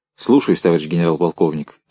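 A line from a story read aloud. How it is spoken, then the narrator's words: Plain. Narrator (Russian): сказал Чуйков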